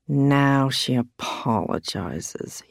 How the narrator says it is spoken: muttered

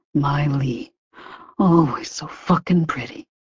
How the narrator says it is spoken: he murmured

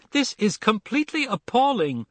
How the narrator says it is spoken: cried

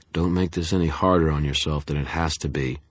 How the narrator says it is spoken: Denton said, his voice toneless

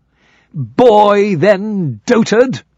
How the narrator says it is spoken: cried the knight

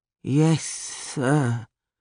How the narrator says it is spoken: mumbled

